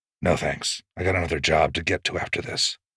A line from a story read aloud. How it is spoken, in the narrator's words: The stare ices over as he turns away, muttering